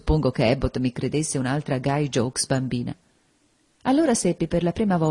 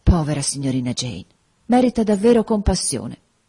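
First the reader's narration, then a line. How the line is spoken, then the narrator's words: Sighing. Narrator (Italian): sospirò, dicendo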